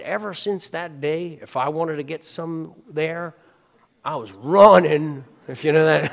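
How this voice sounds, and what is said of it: Poor Forrest Gump impression. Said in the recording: “I'm sure that's a horrible impersonation.”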